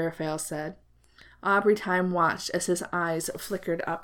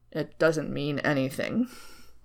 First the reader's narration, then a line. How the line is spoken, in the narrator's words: Crowley mumbled, fooling no one in the room